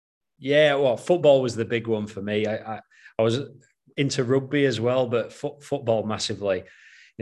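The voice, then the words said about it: Northern English accent. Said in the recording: “You might be able to tell from the accent, I'm a Northern lad at heart”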